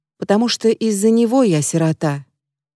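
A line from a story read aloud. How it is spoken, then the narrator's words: Quiet woman's voice. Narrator (Russian): тихо добавляет женщина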